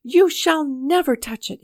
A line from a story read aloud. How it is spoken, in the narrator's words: he screamed